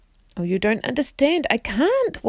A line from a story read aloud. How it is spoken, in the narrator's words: wailed Jill